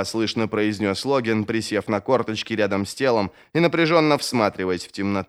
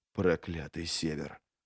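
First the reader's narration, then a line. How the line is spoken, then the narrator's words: Whispered curse. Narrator (Russian): шепотом выругался Логин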